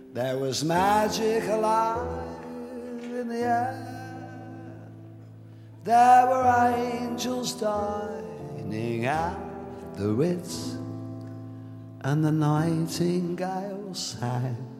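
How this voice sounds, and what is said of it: British English accent, sung. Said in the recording (Chinese): “英式英语的口音，则增添了几分独有的浪子性感”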